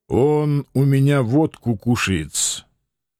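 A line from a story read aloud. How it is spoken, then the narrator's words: Unusually calm remark. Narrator (Russian): Как-то необычайно спокойно заметил кабачик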